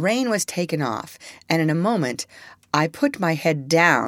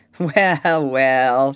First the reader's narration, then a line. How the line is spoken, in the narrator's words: said Jakes with a short laugh